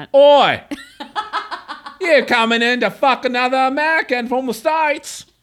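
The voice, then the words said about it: Put-on Australian Cockney-ish accent. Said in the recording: “an Australian accent ... my Australian / English Cockney accent”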